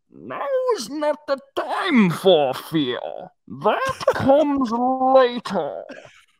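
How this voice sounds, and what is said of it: Slow-talking movie villain impression. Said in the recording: “Why are you talking so slow,... that's how he talks”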